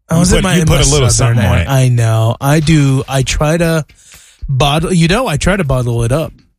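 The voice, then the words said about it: Southern American accent. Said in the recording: “I don't know if anyone finds my southern accent charming or attractive.”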